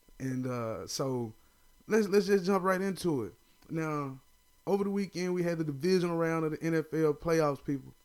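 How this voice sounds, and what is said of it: Southern drawl. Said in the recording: “if you hear the little southern drawl, just know it's because I'm a country boy”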